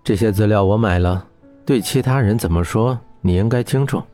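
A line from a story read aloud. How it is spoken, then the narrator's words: Cool businesslike tone. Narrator (Chinese): 小雨用商业的口吻淡淡的说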